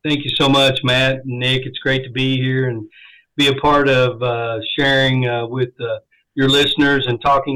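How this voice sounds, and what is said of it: Northern accent. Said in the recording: “I love listening to your accent ... that northern accent”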